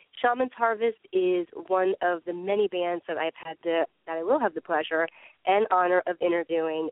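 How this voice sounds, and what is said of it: Slightly off, sick-sounding voice. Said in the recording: “my voice is a little off tonight. I've been under the weather”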